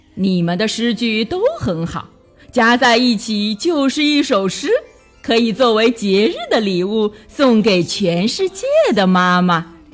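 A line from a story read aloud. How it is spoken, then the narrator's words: Laughing heartily. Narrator (Chinese): 大象老师哈哈大笑起来，说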